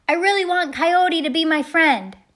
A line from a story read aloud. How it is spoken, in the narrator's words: he shouted